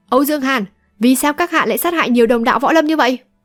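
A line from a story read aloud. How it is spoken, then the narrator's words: Deep-voiced demanding shout. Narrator (Vietnamese): Dù Lòng Nhất Kiếm lại trầm giọng quát hỏi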